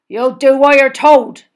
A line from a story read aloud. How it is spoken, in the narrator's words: he growled